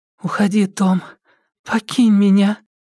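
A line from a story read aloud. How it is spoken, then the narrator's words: Anxious whisper. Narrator (Russian): тревожным шепотом заговорила Тереза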